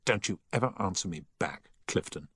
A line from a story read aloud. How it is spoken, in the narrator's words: he said angrily